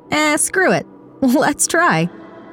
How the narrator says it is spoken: said with a laugh

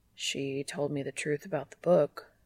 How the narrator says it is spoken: he says quietly

